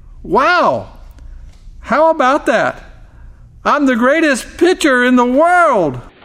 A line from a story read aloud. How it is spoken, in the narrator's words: he exclaimed